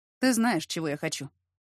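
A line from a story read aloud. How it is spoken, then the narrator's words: Flat, expressionless voice. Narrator (Russian): произнес он ничего не выражающим голосом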